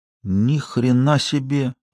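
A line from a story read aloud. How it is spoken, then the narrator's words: Breathless exhale. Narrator (Russian): выдохнул Сошников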